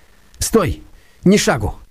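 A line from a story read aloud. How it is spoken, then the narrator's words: Shout. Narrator (Russian): крикнул он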